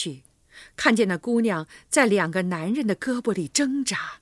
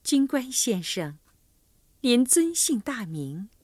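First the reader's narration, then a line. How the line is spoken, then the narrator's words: Gentle, touched question. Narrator (Chinese): 好像被弓箭队长那英俊的容貌和搭救他的好意打动了，温柔地问道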